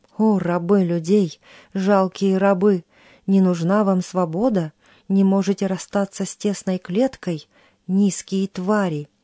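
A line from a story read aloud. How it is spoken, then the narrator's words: Tiger growling in fury. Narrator (Russian): Тигр в ярости прорычал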